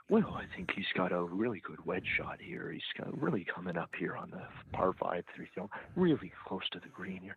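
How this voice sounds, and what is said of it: Quiet whispery low-talker impression. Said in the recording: “Mr. Whisper ... he's a bit quiet ... he's really a low talker ... That's your impression of him?”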